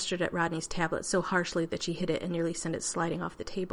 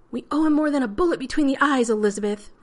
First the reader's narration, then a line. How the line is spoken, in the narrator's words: Rodney shouted